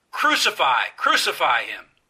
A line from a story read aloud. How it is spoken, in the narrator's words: they shouted, saying